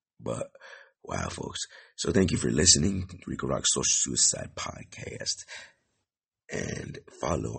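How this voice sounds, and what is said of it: Rough, strained voice. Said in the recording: “My voice is fucked up.”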